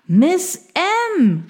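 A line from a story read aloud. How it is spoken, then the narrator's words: Calling out. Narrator (German): rief er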